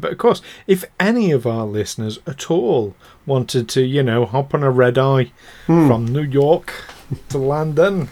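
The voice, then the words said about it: Speaks in a put-on accent. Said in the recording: “I don't know why I'm doing an accent.”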